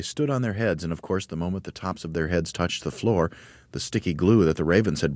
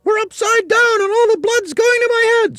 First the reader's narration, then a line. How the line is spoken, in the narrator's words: screamed Mrs